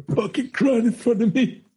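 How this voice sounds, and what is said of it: Poor gangster film character impression. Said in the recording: “my terrible Godfather impression ... me channeling a bit of Brando”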